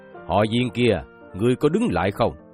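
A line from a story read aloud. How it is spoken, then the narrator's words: Shouting. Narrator (Vietnamese): Trác Thiên Hùng quát lên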